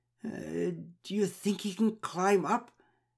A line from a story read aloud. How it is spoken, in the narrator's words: asked with a quavering voice